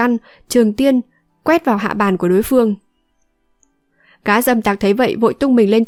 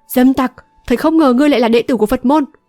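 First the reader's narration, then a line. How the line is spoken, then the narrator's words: Deep-voiced angry shout. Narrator (Vietnamese): Âu Dương Thu trầm giọng quát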